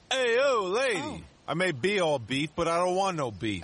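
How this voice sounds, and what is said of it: Put-on New York accent. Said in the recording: “Is that a New York accent? ... of course it's New York.”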